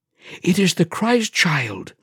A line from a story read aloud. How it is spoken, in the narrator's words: whispered Stefan